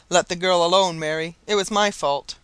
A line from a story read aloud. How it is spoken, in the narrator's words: said the husband